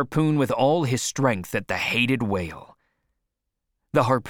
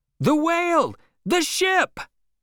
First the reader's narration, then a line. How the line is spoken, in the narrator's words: cried everyone in terror